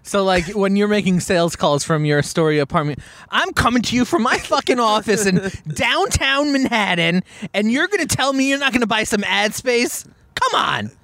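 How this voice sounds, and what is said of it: Pushy, overconfident salesman voice. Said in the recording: “your impression? ... It's like Joe from early Arrested Development, like the guy in the $7,800 pants, the $4,000 suit ... this guy is trying too hard and is too much”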